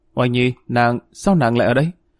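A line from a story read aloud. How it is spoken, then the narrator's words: Stammering speech. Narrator (Vietnamese): Dương Hổ lắp bắp nói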